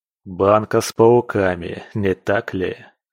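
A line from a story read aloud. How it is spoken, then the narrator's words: Wry snort. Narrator (Russian): хмыкнул владыка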